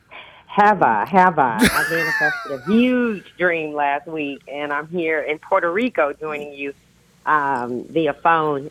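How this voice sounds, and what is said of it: Sounds a little tired. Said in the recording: “You sound a little tired there.”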